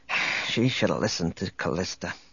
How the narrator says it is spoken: Speaking more to himself than to Chewbacca, he muttered

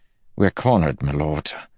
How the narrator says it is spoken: Melton said grimly

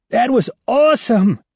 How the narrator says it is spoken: shouts Ivan

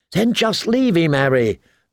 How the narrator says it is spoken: Lommy pleaded

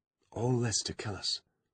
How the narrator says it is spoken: she breathed

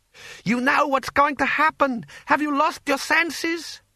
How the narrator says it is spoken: he shouted

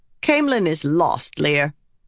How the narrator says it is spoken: Lady Dailin snapped

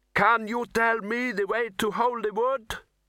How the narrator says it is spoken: The boy cupped his hands around his mouth and shouted

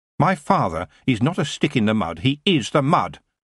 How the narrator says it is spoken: Geoffrey said bitterly

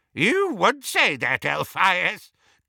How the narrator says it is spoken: cackled Auntie Muriel

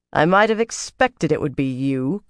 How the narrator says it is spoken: Carlenia said coldly

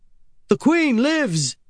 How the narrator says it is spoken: yelled

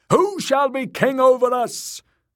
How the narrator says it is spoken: the priest cried once more

